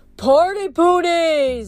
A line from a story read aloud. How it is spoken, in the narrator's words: a centaur yelled